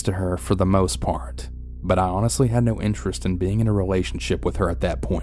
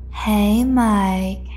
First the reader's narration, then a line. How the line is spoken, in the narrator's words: she had said in an irritating, seductive voice